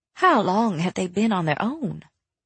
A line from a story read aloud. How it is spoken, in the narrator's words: Rainy asked quietly